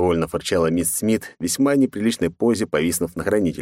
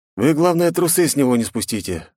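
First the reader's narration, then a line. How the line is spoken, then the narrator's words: Sighing. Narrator (Russian): вздохнул я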